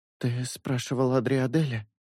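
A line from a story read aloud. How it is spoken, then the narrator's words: Quiet. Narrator (Russian): негромко проговорила Синель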